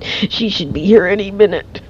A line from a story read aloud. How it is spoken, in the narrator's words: he gasped for air and said